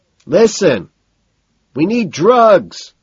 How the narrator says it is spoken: I think I hear him shout

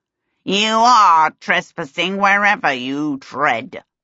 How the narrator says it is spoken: the lubbock snarled

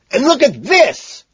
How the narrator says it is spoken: I scream triumphantly

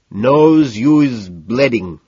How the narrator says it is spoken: in a thick, nearly impenetrable accent says

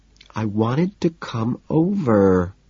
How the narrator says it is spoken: she says in a whiny little girl tone

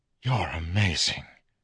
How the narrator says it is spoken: whispered

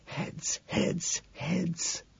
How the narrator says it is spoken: I hiss, praying

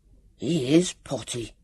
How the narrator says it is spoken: Sam whispered loudly to Vivian

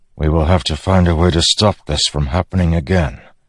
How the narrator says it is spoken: Dalinar said softly

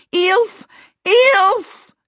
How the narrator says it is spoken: she bellowed

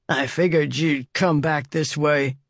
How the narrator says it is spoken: he said, the words slurred by his shriveled lips

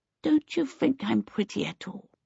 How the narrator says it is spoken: Twinkle said wistfully

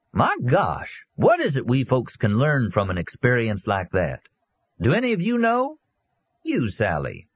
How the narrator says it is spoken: telling them in an affable, informal voice

